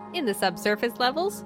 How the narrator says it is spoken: the man laughs

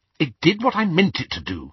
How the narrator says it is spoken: said Hermione rather crossly

